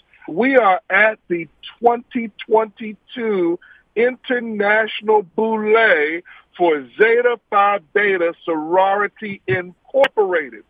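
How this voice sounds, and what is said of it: Excited, energetic speaking voice. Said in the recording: “hear the excitement in my voice?”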